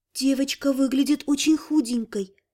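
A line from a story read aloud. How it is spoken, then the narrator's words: Very soft rustling voice. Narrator (Russian): Совсем тихо прошелестел голос его спутницы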